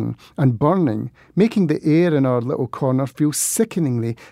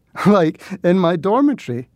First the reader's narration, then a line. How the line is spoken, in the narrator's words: laughed Valentine